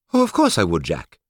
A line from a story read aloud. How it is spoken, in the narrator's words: he replied happily